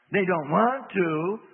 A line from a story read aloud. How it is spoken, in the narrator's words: wailed the demon